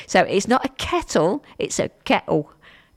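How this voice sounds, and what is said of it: Weak East London accent, glottal stops. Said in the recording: “down in East London ... You've got to miss the T's out in the middle, remember. You've got to do your glottal stop. ... My accent's not getting any better, is it?”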